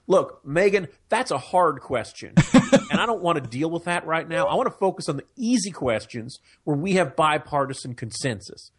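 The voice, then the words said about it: Imitates another person's voice. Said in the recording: “That's my Ted Cruz impression right there.”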